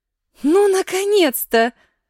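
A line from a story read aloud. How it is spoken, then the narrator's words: Joyful exclamation. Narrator (Russian): обрадованно воскликнула она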